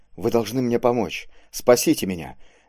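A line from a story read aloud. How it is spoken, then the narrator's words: Hot, breaking whisper. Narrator (Russian): горячим, срывающимся шепотом забормотал он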